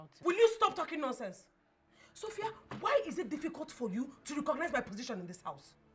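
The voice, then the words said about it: Shouting angrily. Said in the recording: “you're shouting”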